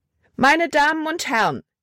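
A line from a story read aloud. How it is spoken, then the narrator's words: Called loudly. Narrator (German): rief sie laut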